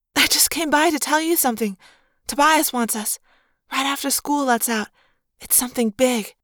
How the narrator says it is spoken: in a breathless voice she whispered

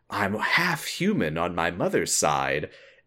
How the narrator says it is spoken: whispers to him

